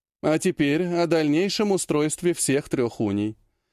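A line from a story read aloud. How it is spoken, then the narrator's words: Matter-of-fact tone. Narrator (Russian): будничным тоном произнесла Афина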